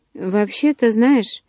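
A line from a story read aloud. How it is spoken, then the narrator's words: Hesitant start. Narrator (Russian): неуверенно начала она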